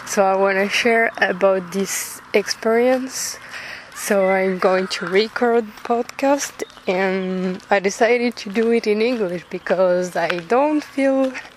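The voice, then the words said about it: French accent speaking English. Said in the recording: “I'm French, but you probably figured out with my accent”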